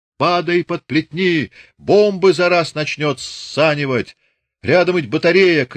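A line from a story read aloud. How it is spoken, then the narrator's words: Shouted. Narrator (Russian): крикнул Чубатый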